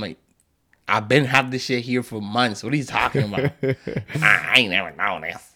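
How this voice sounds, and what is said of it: Usual voice. Nothing is said of it.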